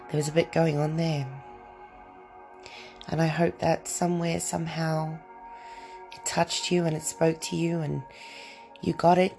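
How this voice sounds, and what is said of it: Slightly croaky voice. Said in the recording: “my voice is a little bit croaky. I feel like I'm getting a little bit maybe of a cold.”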